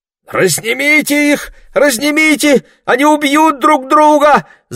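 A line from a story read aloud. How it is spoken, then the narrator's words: Shout. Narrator (Russian): закричала Марго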